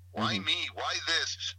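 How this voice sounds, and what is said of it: Whiny voice. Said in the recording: “sounds like a whiny person.”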